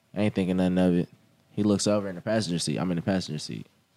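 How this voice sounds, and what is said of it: Tennessee accent. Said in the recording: “we in Tennessee, so our accent's a little different”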